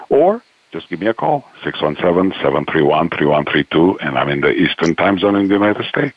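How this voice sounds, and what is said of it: Polished radio announcer voice. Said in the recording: “I'm going to speak just with this very radio voice”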